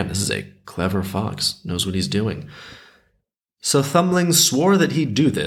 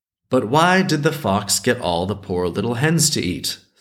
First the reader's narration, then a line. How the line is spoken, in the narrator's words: Thumbling asked